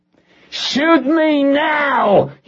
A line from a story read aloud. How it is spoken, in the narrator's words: he screamed